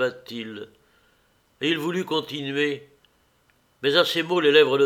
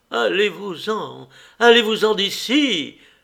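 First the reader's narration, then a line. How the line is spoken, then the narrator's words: Sharper shout. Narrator (French): cria-t-elle encore plus vivement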